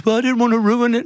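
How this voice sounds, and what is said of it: Imitates another person's voice. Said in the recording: “that's not how my mum's voice is. I don't know why I did that voice.”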